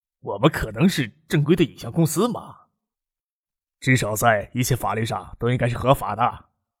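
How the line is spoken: Wry, bitter smile. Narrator (Chinese): 吴天宝苦笑的说

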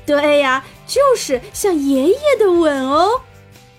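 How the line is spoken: Laughing heartily. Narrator (Chinese): 妈妈哈哈大笑说

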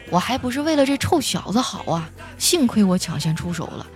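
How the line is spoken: Sighing grandmother. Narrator (Chinese): 外婆叹了一口气说

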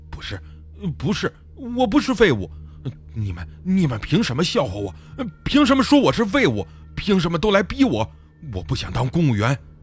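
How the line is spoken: Panting, agitated. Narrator (Chinese): 大志喘着粗气

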